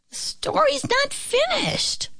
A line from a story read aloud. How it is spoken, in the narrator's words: the little pig squeaked